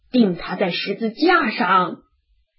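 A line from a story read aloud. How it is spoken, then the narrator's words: Shouting louder. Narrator (Chinese): 他们越发喊说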